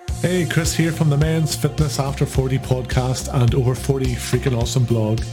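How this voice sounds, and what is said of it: Irish accent. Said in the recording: “here in Ireland, as you can probably tell from the accent”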